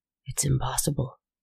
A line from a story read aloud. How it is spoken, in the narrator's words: whispered